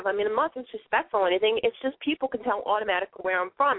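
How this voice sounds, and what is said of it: Authentic Boston accent. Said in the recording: “I talk kind of funny ... I'm from Boston. Yes, it's an authentic Boston accent. It's not fake.”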